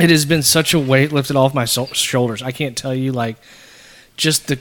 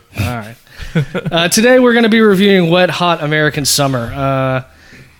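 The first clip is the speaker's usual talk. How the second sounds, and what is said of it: Announcer-style radio voice. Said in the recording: “Such a radio voice all of a sudden.”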